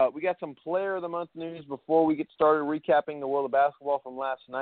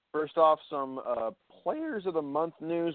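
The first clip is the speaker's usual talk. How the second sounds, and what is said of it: Voice cracks. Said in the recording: “my voice just cracked”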